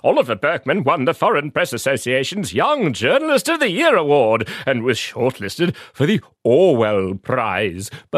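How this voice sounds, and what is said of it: Silly put-on voice. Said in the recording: “that silly voice”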